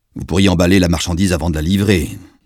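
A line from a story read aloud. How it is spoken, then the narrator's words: Gruff declaration. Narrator (French): déclara l'étranger d'un ton bourru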